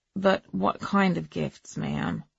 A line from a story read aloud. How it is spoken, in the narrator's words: said the man wearily